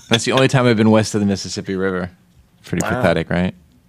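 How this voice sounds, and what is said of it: New York accent. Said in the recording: “you got the New York accent”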